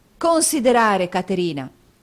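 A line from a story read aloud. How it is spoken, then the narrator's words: Angry exclamation. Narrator (Italian): esclamò Nicola nell'impeto di collera da cui era assalito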